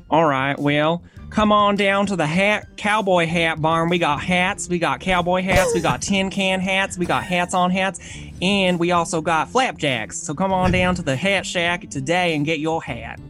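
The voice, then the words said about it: Exaggerated Texas country accent. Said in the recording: “Do your best Texas accent ... it was pretty good ... it was like ghetto country ... Thug at the end”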